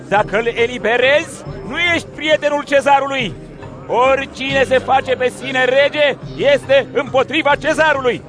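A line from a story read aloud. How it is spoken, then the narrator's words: Crowd shouting. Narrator (Romanian): iudeii au strigat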